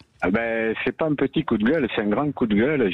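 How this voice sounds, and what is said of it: Regional French accent. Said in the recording (French): “vous nous appelez du Nord à entendre votre accent ... du Nord de l'Espagne ... du Nord de la Catalogne”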